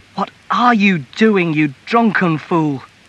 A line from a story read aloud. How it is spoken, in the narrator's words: the mother cried